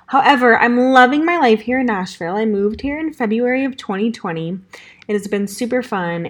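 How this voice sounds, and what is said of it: Valley Girl voice. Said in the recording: “I still sound like my classic Valley Girl voice, and that probably won't change”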